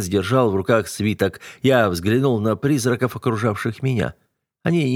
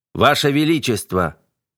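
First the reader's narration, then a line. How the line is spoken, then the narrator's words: Barking. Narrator (Russian): рявкнул на него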